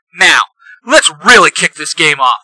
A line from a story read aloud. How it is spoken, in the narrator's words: Red Ranger shouts